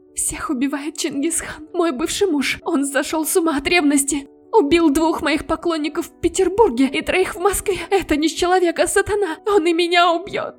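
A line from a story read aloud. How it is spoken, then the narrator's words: Actress babbling, choking on tears. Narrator (Russian): давясь слезами, лепетала актриса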